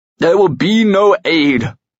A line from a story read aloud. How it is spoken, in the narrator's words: he roared